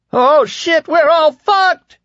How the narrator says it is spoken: Lloyd Henried cried

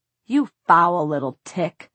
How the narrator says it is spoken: Sebastian snarled

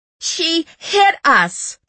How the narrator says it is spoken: the woman shrieked

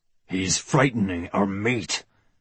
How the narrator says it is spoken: growled Brother Wolf

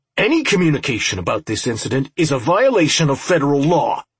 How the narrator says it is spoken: Robinson snapped

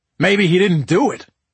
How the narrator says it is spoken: I bellowed

